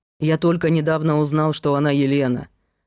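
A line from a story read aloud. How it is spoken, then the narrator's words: Grumbled. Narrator (Russian): пробурчал Герман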